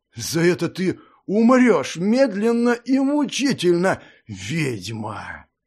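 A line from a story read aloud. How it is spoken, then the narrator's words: Hissing. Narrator (Russian): прошипел он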